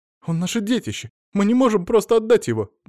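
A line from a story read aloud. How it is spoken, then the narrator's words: Girl near tears. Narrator (Russian): Девушка, кажется, готова была разрыдаться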